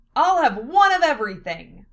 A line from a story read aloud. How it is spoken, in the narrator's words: Lena shouted